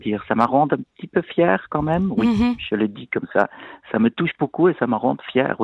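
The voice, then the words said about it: Speaks with a pleasant foreign accent. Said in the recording (French): “Ce bel accent que vous entendez”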